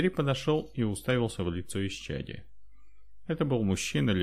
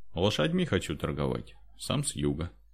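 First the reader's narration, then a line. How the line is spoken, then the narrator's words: Calm. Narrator (Russian): спокойно ответил Андрей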